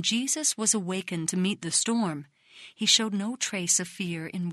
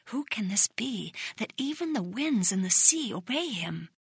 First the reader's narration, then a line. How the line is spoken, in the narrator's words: The people whispered among themselves